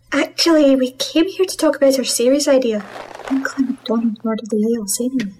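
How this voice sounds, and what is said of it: Scottish accent. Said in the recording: “You can stop with the accent. ... She's Scottish. She has an accent, and it's a damn good one.”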